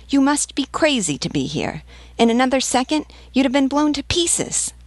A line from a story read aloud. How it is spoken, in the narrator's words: The vivandière added furiously